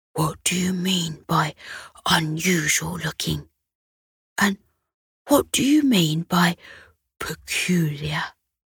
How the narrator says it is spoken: Hector whispered back

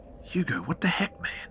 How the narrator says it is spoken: I whisper hissed

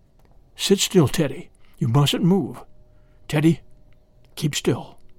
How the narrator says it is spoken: all his father could do was whisper

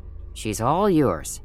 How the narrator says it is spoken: he muttered

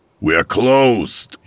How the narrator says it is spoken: hollered

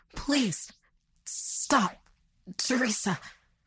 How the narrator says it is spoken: sputtered out in pain

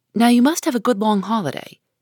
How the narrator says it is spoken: said hastily

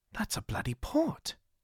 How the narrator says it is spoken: Jonathan muttered

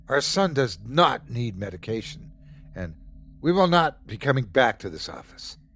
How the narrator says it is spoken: They started yelling

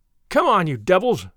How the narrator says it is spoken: he cried

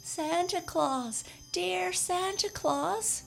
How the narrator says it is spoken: cried Jimmy Scarecrow with a great sob

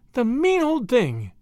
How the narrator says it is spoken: exclaimed indignantly

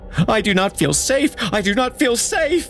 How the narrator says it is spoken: she screamed as she passed them

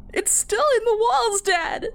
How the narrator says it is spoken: I wailed

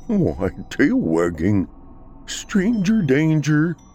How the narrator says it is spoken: Thor whimpered

